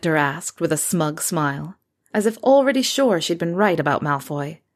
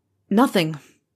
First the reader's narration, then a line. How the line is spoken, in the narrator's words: Harry answered dryly from behind his desk